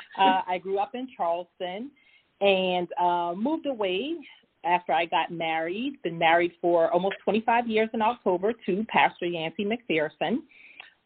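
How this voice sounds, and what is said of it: Lowcountry South Carolina accent. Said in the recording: “you probably heard my accent, so you know I am from the Lowcountry ... you probably think I'm from Jamaica, but I'm not”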